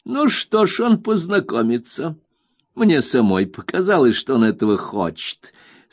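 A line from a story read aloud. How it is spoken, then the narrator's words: Laughing. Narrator (Russian): сказала мисс Моучер и, смеясь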